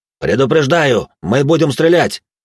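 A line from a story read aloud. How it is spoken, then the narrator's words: Shouted warning. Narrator (Russian): выкрикнул тюремщик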